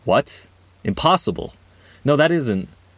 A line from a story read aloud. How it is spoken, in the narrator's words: Breaking hundreds of years of silence, Huygen exclaimed in confusion